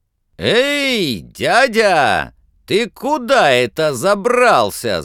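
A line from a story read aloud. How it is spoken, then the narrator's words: Very loud shout. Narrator (Russian): закричал комар Комарович на весь лес, да так громко, что даже самому сделалось страшно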